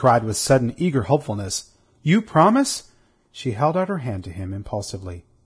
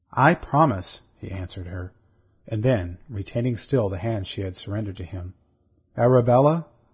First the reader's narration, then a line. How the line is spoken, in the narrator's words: he said very gently